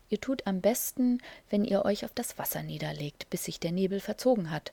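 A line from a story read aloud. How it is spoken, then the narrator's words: Plain. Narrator (German): sagte die Ente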